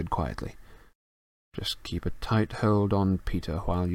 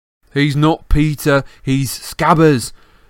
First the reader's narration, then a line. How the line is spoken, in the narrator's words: yelled Ron